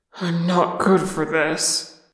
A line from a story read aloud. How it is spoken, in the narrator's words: Oin groaned, putting a hand at his side